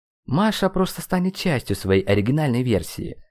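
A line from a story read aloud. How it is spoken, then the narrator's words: Calm. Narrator (Russian): спокойно произнес Ирамю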